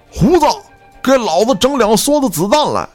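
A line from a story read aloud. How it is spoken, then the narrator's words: Loud shout. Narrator (Chinese): 机枪手高喊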